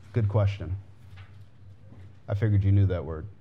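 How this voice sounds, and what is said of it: Sarcastic tone. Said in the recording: “That was a joke. That was sarcasm.”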